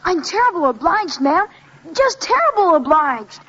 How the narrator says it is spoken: loudly and clearly he said

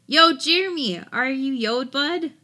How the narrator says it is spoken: yelled half-jokingly, trying not to get too scared

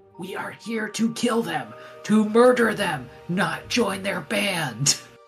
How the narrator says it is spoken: like whispers, like annoyed

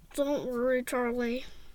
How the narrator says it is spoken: mumbled Mom around the thermometer in her mouth

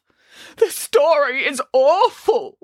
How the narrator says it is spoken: wailed Boris

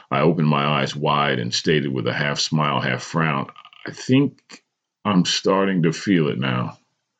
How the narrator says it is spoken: I said quietly

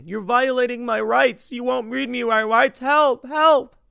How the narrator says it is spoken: this guy kept whining

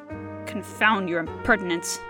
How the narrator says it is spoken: Reggie growled

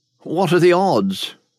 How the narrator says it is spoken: William asked hesitantly

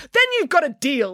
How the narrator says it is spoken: exclaimed Nanny Piggins

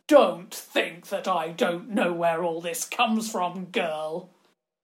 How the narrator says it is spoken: he said, his voice full of danger and violence

